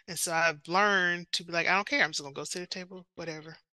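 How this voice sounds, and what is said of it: Southern American accent. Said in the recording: “oh, I can tell by your accent ... I guess I sound really Southern when I'm not in a Southern place”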